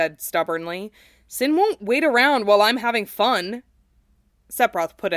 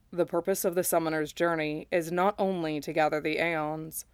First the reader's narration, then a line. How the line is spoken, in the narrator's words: Sephiroth said softly